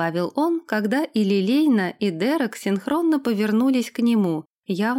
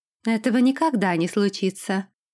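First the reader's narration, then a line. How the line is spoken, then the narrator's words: Cold remark. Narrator (Russian): холодно заметила Лилейна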